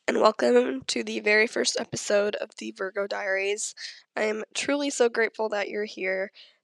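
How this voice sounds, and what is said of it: Nasal, congested sick voice. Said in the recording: “sorry about my voice right now. I know I'm a little nasally. I'm a little sick right now.”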